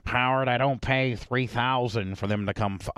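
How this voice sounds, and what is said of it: Weak Charlie Sheen impression. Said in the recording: “Charlie's like ... I'm probably not a good impersonator.”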